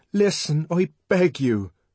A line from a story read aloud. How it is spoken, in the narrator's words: cried the savage earnestly